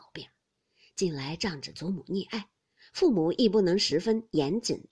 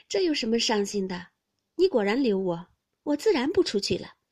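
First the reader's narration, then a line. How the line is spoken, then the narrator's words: Laughing. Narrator (Chinese): 袭人便笑道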